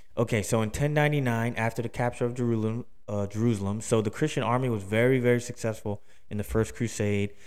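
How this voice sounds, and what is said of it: Accented, thick mumbled-sounding speech. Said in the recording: “it's hard with my accent, and I talk like I'm eating like a freaking jar of peanut butter”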